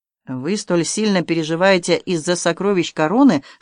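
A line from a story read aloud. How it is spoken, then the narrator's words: Plain. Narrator (Russian): спросил Каверин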